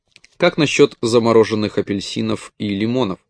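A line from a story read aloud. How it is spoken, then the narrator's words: Plain. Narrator (Russian): спросил грек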